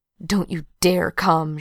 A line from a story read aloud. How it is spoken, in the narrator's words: she hisses